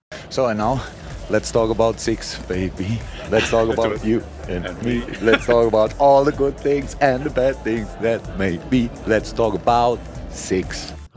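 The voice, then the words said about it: German accent. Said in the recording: “he was a German ... It sounds German.”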